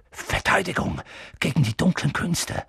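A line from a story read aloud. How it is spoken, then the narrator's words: Reluctant murmur. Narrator (German): murmelte Professor Quirrell, als ob er lieber nicht daran denken wollte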